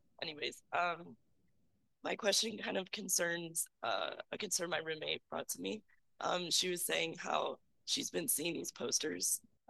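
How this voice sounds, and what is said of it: Voice in bad shape. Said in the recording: “My voice is so bad today. ... apologies for my voice, it's really bad.”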